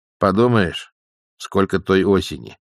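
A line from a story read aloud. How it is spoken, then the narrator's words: Gloomy. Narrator (Russian): мрачно сказала матушка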